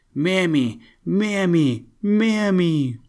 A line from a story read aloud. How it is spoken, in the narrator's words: at the top of his voice